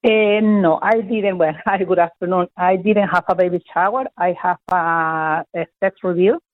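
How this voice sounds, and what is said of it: Venezuelan accent. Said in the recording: “where is your accent from ... I'm from Venezuela.”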